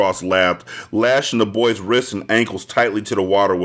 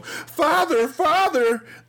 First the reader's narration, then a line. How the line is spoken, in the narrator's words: the terrified Aloe cried